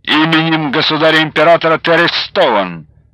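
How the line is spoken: Barked. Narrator (Russian): рявкнул Лунев

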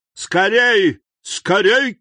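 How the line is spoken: Startling shout. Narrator (Russian): крикнул таким голосом, что кучер привскочил на козлах

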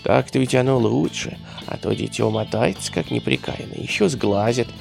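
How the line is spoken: Old woman muttering. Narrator (Russian): бормотала старуха

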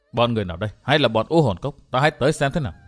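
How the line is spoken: Muttering. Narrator (Vietnamese): Thạch Kiếm Cửu lẩm bẩm

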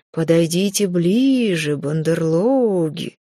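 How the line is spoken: Sepulchral call. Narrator (Russian): За могильным голосом позвала я Рейну и Эйлорда

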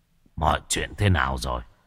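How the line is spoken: Hoarse voice. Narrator (Vietnamese): Sát tâm cất giọng khàn khàn nói

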